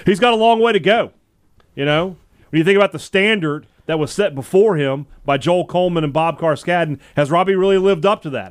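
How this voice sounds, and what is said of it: Imitates another person's voice. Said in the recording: “in my best Zach Arnett impression,”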